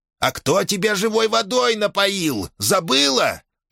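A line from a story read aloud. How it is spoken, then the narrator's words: Howling wail. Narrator (Russian): взвыл шаман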